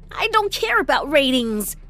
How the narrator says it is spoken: I snapped

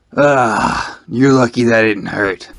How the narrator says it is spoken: One-Up growled

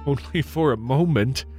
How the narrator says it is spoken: he replied with a laugh

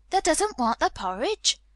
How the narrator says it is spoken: Martha exclaimed incredulously

